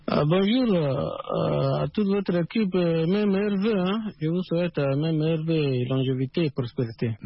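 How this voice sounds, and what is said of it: Chadian French accent. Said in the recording (French): “À suivre votre accent, on vous appelle du Tchad”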